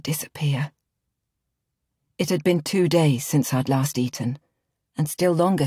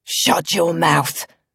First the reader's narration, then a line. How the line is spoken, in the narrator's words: my father had growled, his breath reeking of gin